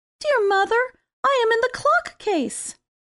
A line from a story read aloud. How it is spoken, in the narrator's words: a small squeaking voice answered